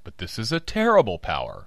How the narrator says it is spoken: I cried

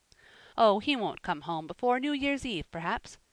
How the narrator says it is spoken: said Godfrey

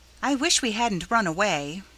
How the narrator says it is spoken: returned Robbie so trustfully

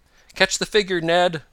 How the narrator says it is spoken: Tom cried

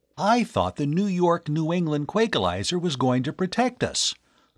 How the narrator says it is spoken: the young inventor exclaimed

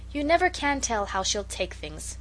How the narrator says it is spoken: said Peter gloomily

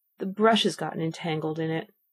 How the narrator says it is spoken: the Queen said with a sigh

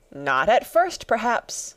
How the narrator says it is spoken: said the Hatter

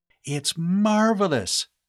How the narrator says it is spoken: Sandy exclaimed

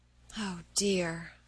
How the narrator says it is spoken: sighed Meg

